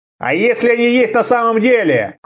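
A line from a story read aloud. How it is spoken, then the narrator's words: Loud speech. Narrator (Russian): сказал он громко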